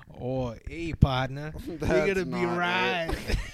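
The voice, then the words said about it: Poor attempt at a put-on accent. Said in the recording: “you gotta get the accent going ... You're nowhere near it.”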